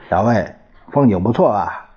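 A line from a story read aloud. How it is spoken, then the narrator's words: Smiling. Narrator (Chinese): 老杨、老李 他们笑笑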